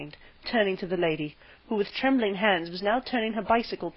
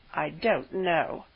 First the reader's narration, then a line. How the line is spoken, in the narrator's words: lied miserably